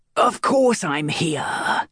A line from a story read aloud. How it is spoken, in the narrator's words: the captain snarled